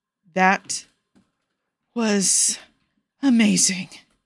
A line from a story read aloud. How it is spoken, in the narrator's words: he finally pants out